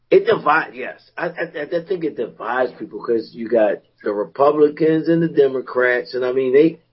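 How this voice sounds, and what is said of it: Slightly raspy voice. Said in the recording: “Now my voice ain't ... being a little raspy. I don't have that boom like Kit, but ... it's a little bit of a raspy”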